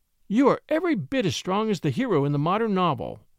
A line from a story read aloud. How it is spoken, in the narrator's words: she said happily